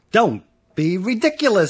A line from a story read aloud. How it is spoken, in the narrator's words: said Carmen